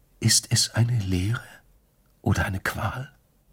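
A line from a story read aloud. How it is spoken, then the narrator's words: Whispered. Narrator (German): hatte geflüstert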